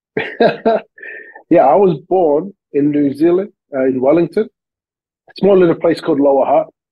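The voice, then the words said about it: Australian accent. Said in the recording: “slight accents ... You have the cool Aussie accent”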